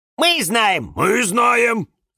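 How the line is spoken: Shouted in unison. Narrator (Russian): закричали в один голос фикусы Вениамин и Валентин

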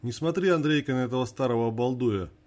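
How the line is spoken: Old woman, scoffing. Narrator (Russian): хмыкнула старуха

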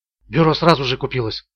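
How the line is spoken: Whispered reply. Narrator (Russian): прошептал в ответ Ричард

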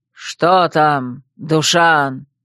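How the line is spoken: Hoarse rasp. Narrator (Russian): прохрипел Одан

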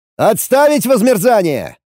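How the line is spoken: Hasty shout. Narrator (Russian): Только и успел крикнуть я

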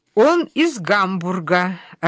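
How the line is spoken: Joyful announcement. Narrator (Russian): радостно сообщает нам мама

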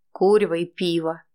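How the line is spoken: Gruff grumble. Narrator (Russian): буркнул Витя

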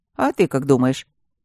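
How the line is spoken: Snorting grunt. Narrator (Russian): Байдек хмыкнул

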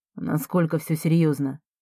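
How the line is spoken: Quiet question. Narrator (Russian): тихо спрашивает Марко

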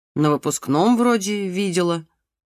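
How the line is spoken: Uncertain mumble. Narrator (Russian): неуверенно пробормотала Люська

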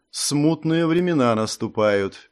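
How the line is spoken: Sad royal sigh. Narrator (Russian): печально вздохнул король

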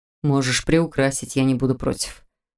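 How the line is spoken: Snort, feigned bravado. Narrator (Russian): хмыкнул он просто храбрясь

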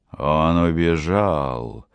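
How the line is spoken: Hissing tone. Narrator (Russian): проговорил кандидат шипящим тоном

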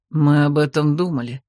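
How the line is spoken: Sighing. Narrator (Russian): вздохнул Годранс

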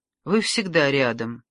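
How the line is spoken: Calm but hostile reply. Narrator (Russian): спокойно, но с неприязнью отозвалась Екатерина

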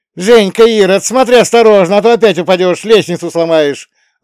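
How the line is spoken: Sudden yell. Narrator (Russian): заорала вдруг одна из них

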